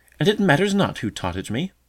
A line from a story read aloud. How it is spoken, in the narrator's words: answered the bee in an indignant tone